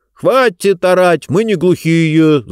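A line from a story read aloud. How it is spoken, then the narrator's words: Yelling back. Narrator (Russian): заорал он в ответ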